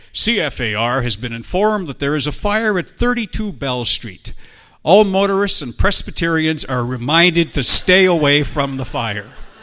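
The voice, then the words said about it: Radio announcer voice. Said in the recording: “put on my radio voice”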